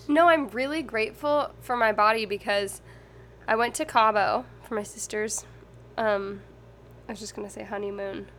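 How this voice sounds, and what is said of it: Congested voice. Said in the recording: “you sound a little congested ... You've sounded better.”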